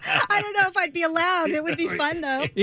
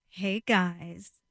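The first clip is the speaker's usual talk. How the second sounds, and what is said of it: Sultry, seductive voice. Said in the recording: “sexy voice, not my news voice”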